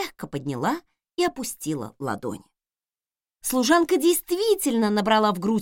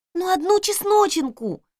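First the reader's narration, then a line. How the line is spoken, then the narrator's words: Pleading. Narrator (Russian): взмолилась она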